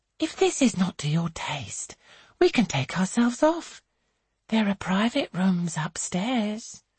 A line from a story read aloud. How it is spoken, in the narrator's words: she adds in a sugared murmur